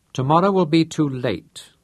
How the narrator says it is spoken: said Chasser

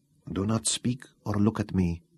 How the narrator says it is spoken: whispered

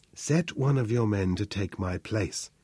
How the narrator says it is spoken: whispered

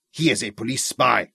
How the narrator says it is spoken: Vicky snarled at him

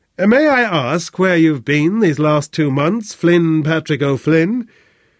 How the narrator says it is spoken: Although she tried to speak like a man, yet her voice had a lift and a ring to it

